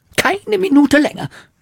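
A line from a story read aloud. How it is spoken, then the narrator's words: Shouting aunt. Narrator (German): schrie Tante Trude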